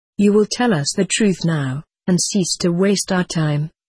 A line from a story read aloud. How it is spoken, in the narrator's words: said the colonel